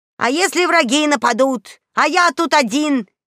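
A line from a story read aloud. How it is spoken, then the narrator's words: Indignant. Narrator (Russian): выдал он, возмущенно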